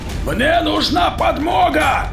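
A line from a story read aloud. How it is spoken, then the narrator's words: Barked shout. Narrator (Russian): гаркнул майор во двор за воротами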